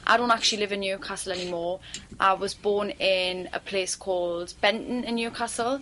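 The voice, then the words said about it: Native Geordie accent. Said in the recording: “I'm just going to speak in my own accent ... Geordie accent”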